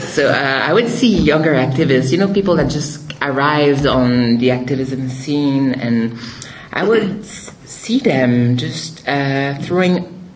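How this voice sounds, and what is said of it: Strong French Canadian accent. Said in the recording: “sorry for the strong French Canadian accent”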